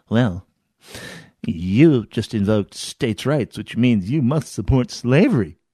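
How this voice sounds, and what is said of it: Put-on academic accent. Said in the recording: “I'm going to try and affect the academic accent that so many of them have as their native language”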